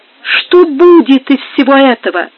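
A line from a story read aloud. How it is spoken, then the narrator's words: Trembling exclamation. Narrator (Russian): воскликнула она дрожащим голосом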